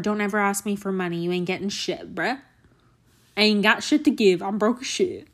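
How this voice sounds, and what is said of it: Put-on Southern American accent. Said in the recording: “I don't know what accent I'm doing this episode ... It's like some version of Southern, I guess. It's my attempt at that.”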